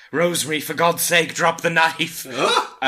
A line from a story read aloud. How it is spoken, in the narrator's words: he was heard to be shouting